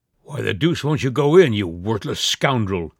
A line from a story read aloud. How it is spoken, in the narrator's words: he exclaimed